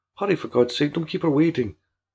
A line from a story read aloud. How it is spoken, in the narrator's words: he called in a hushed, but urgent tone